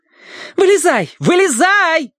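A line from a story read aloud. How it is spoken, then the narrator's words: Shouted. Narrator (Russian): закричала Ария Чилани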